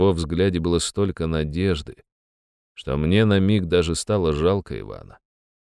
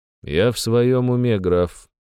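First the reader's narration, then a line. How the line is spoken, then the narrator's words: Even tone. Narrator (Russian): ровным тоном ответил я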